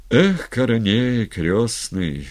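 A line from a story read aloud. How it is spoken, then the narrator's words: Sighing. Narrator (Russian): вздохнул Степан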